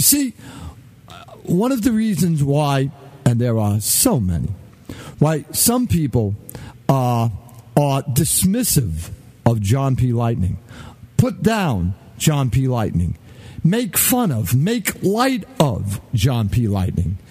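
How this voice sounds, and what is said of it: Thick Brooklyn New York accent. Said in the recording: “my legendarily rich, thick Brooklyn accent ... my Brooklynese ... obvious that I am a New Yorker ... sounding like a New Yorker”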